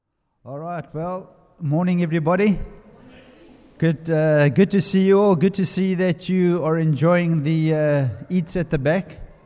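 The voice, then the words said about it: South African accent. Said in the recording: “I'm from South Africa. You'll notice from my accent.”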